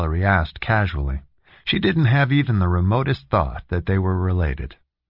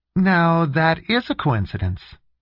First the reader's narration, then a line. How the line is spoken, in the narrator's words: she said brightly, but still unimpressed